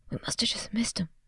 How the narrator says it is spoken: Easton whispered, struggling to keep his bike upright and hold a tire iron at the same time

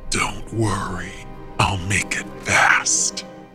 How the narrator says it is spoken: rasped

